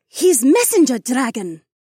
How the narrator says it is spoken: Aaliyah gasped

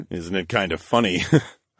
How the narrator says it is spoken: I chuckled darkly

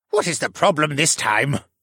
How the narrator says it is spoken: Jenner grumbled

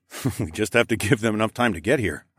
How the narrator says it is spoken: chuckled

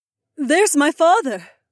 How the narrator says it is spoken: Aliona called out

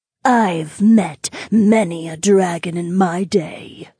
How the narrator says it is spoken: the Sundex spirit spat out

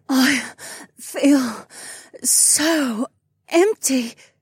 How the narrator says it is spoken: Sienna moaned

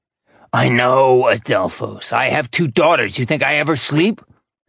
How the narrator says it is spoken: Manides snorted

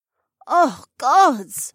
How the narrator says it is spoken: Rebecca groaned

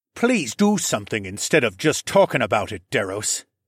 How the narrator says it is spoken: Civic snapped

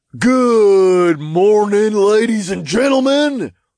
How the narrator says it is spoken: the imp announced in a deep southern drawl

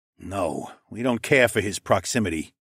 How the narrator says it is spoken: Mael grunted

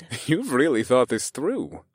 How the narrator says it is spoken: I chuckled

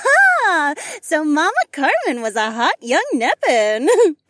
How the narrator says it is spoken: Trina giggled

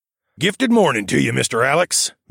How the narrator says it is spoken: Mel said in the cheeriest voice

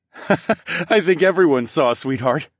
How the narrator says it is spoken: laughed

